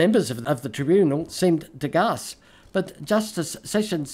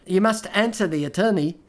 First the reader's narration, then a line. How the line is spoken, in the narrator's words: Sessions said